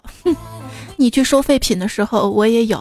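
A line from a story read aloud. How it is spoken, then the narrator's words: Wry, bitter smile. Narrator (Chinese): 李瘸子 苦笑道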